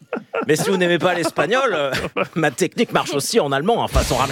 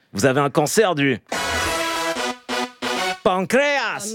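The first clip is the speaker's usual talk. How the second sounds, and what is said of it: Put-on South American accent. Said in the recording (French): “si tu le dis avec un accent sud-américain”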